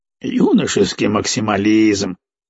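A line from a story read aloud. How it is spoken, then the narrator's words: Snorting. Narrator (Russian): хмыкнул Жмых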